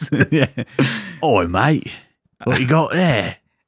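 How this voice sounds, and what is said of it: Put-on Cockney accent. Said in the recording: “Somehow he has like a Cockney accent.”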